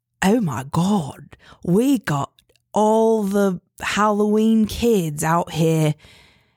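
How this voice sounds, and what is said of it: Imitates a character's accent. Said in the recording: “I'm really, really good at his accent. ... You're so good.”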